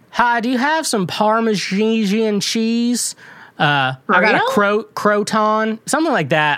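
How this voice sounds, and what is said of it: Put-on Ozarks Southern accent. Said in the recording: “a legit Ozarks accent ... Alabama panhandly kind of a deal ... It has a similarity to a Southern accent, but a lot of the accent is just mispronouncing words.”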